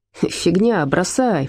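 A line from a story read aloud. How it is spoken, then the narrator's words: Snort. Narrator (Russian): фыркнул Отто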